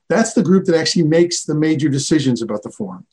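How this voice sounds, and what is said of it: American accent. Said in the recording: “I'm obviously speaking with an American accent.”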